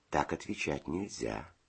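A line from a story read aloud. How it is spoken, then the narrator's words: Gentle explanation. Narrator (Russian): ласково объяснил Федя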